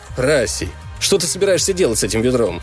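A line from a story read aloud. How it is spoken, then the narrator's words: Exclaiming. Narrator (Russian): воскликнул Хейвей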